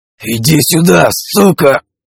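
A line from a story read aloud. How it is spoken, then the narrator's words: Hissed through teeth, in pain. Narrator (Russian): Прошипел я сквозь стиснутые зубы и, превозмогая боль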